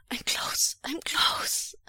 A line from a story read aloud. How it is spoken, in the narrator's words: Wei Wuxian gasps